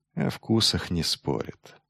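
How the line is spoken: Dull quiet mutter. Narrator (Russian): тупо пробормотал Майлз, достаточно тихо, чтобы его не услышали

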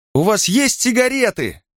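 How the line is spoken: Girls shouting. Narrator (Russian): крикнули девушки

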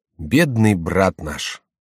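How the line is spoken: Sighing. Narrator (Russian): Горанфло вздохнул

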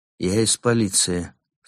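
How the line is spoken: Calm. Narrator (Russian): спокойно объявил Карим

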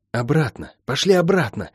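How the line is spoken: Hoarse. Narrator (Russian): хрипло сказала она

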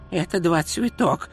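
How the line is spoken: Whisper. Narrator (Russian): шепнул Ринсвинд

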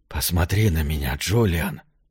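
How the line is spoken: Quiet call. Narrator (Russian): тихо позвал Джошуа

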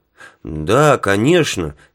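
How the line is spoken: Unhappy mumble. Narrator (Russian): с несчастным видом промямлил Билл

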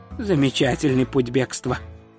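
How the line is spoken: Mutter. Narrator (Russian): пробормотал Ринсвинд

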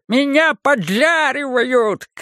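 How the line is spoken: Old man yelling. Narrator (Russian): кричал старик Два Зубы

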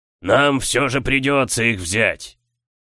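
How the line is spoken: Thundered. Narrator (Russian): прогремел Камаргас

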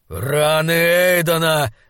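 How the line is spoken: Growled. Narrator (Russian): зарычал Айнскалдер

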